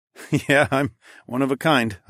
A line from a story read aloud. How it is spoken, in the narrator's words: I chuckled